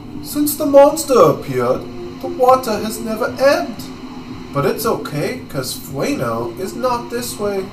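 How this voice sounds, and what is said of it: Poor put-on accent. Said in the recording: “my accent attempt is getting even worse... It's so bad!”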